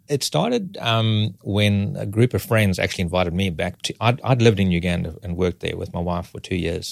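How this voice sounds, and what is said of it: Noticeable foreign accent. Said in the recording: “Detecting an accent.”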